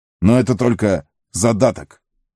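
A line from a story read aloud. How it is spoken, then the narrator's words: Barking. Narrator (Russian): рявкнул он на Пиппина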